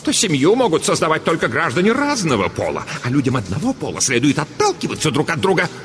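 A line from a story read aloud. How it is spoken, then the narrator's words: Indignant. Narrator (Russian): возмущенно продолжала Дурцева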